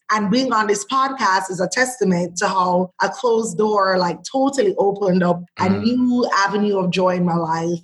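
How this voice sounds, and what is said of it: Unfiltered Jamaican accent. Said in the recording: “her accent is unfiltered ... we both grew up in Jamaica”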